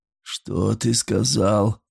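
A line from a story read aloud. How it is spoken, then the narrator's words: Hoarse bleating. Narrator (Russian): проблеял хрипло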